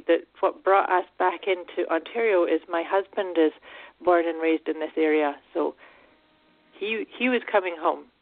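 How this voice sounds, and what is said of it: Scottish accent. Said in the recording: “you definitely have a Scottish accent”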